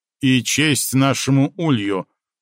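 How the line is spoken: Booming drone. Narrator (Russian): прогудел сэр Дуб

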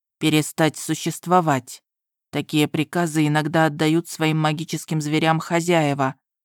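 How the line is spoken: Plain. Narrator (Russian): ответил он

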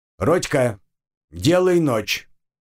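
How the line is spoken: Loud bark. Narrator (Russian): гаркнул я

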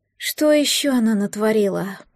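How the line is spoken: Groaning. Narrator (Russian): простонала Амалия

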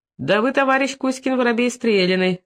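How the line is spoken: Laughing. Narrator (Russian): засмеялся опять востроносый

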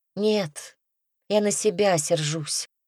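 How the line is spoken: Sighing close to ear. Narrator (Russian): вздохнула Лиза у самого уха

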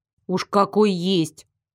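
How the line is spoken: Snapping retort. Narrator (Russian): Огрызнулась я

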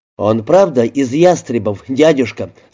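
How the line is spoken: Plain. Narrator (Russian): сказал студент

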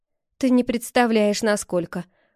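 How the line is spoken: Gloomy reply. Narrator (Russian): мрачно отозвалась я

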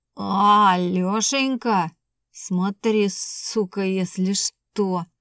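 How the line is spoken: Drunken spiteful sputtering hiss. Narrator (Russian): пьяную, брызгая слюной, злобно подхихикивая, зашипел

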